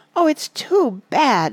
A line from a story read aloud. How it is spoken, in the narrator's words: sobbed Lucy